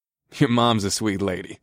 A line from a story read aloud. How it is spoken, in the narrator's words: I chuckled